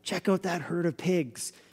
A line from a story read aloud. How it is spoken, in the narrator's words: they'd whisper from the shadows